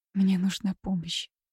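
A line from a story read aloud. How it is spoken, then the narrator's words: Strained female whisper. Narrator (Russian): сквозь зубы прошептала она, перешагнув через себя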